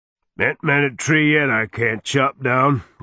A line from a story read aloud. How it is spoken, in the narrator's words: Garrod growled